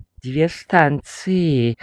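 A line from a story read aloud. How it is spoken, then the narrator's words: Glum. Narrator (Russian): уныло сказал кондуктор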